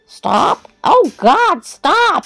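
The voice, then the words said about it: Distressed imitated cry. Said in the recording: “the way she said that sent shivers down my spine. She was clearly imitating someone in distress.”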